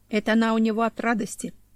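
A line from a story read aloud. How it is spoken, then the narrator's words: Authoritative explaining tone. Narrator (Russian): авторитетным тоном пояснил Горностай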